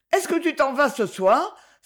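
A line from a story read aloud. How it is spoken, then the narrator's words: Terrified exclamation. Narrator (French): s'écria Madame Fèvre d'un air terrifié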